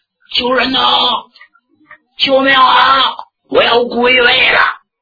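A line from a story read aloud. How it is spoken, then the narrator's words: Shouting for help. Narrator (Chinese): 对面有人喊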